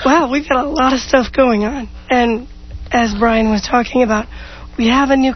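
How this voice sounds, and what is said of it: Hoarse, rough voice. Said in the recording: “She's been hoarse. ... She has a sexy voice. ... It sounds pretty rough”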